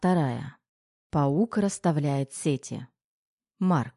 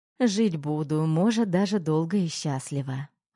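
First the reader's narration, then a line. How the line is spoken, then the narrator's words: Plain. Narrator (Russian): ответила она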